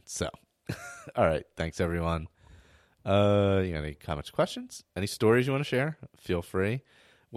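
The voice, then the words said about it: Strained, hoarse voice. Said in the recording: “I'm losing my voice again”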